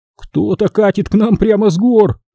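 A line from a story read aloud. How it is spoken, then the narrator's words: Exclaimed. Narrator (Russian): воскликнул Гугин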